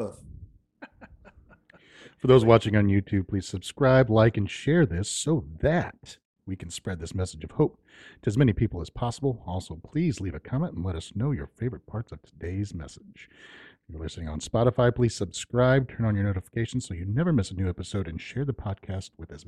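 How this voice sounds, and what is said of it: Professional announcer voice. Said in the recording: “he's like a professional now ... his little announcer voice”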